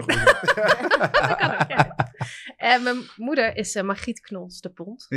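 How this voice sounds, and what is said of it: Limburg Dutch accent. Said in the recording (Dutch): “Vandaar jouw accent.”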